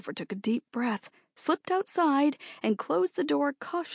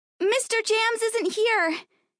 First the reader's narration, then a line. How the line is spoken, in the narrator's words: shouted up